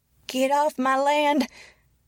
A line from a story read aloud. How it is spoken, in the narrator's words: shouted the woman, her voice old and shrill